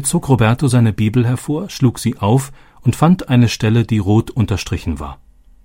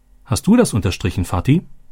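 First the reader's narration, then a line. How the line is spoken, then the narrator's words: Plain. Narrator (German): fragte Robbie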